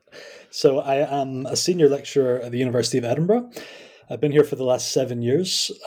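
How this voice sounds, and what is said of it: Scottish accent. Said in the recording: “I am Scottish, as you can probably tell by my accent.”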